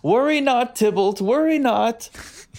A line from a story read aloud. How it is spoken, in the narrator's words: I just want to yell